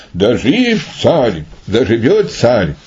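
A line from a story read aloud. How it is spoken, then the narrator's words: Joyful crowd exclaiming. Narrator (Russian): Весь народ обрадовался и воскликнул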